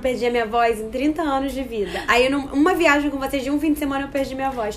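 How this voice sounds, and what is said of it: Hoarse, nearly lost voice. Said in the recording (Portuguese): “com voz de travesti porque é... ela perdeu a voz na viagem”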